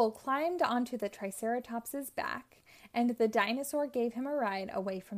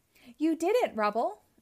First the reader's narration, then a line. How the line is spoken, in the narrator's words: exclaimed the engineer